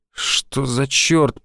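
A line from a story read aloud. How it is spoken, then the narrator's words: Mumbled through numb lips. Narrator (Russian): пробормотал непослушными губами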